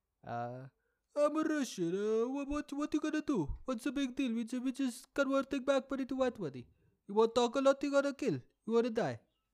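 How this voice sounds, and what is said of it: Put-on Russian accent. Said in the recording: “That was my Russian accent.”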